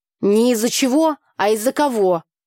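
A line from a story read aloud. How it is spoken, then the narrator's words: Snapped. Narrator (Russian): огрызнулась Таня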